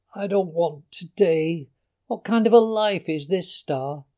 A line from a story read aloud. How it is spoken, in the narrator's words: I groaned